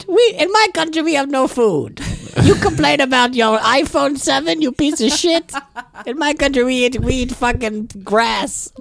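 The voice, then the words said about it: Badly done, unplaceable foreign accent. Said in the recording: “I don't know what accent that was supposed to be. That was the worst impression. ... I really don't know what accent it is.”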